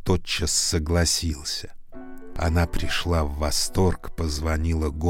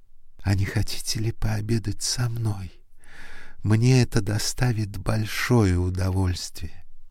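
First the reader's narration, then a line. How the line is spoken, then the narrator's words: Timid question. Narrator (Russian): она робко спросила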